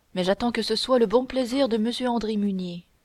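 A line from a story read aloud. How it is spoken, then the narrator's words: Sighing. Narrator (French): dit Oudarde, en soupirant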